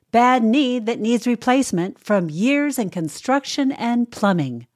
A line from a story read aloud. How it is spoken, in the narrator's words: shout